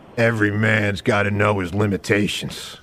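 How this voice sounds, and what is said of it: Bad imitation of another person's voice. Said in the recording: “maybe the worst impression you've ever given ... That was your Clint Eastwood impression. ... That was bad. ... That's so bad ... A lot of your impressions are just the same voice.”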